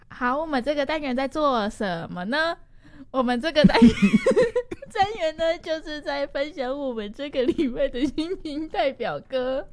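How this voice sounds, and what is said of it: Imitates another person's voice. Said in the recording (Chinese): “那你可以模仿一次吗？”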